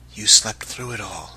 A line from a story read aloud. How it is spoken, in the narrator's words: he half-whispered